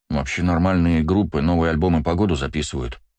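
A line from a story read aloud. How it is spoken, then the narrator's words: Grumble. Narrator (Russian): пробурчал Астарот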